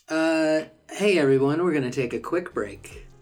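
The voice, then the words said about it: Announcer-style radio voice. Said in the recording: “That was my radio voice... It was a good radio voice.”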